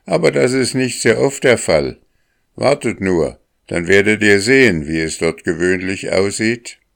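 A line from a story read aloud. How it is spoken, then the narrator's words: Calling out. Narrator (German): rief Akka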